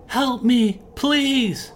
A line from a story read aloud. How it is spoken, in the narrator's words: a woman cried